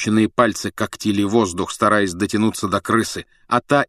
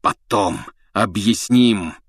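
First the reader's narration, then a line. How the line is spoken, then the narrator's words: Hoarse. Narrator (Russian): хрипел Блэк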